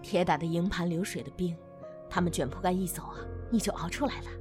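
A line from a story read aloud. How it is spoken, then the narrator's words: Low, muffled voice. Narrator (Chinese): 大巧 手遮着嘴唇，压低声音说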